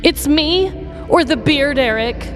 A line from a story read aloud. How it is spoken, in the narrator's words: she said desperately